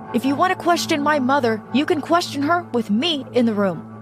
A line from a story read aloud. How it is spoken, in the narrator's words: Todd said furiously